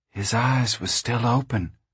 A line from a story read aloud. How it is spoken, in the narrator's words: said Ruthie in a hushed tone